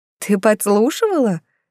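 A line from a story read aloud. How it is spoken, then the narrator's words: Cheerful exclamation. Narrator (Russian): весело воскликнула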